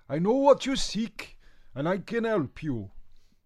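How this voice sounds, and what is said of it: Slight put-on Welsh accent. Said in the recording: “It seems to have developed a slight Welsh accent”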